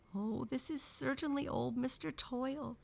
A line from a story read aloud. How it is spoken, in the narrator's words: said Daffy-Down-Dilly in a trembling voice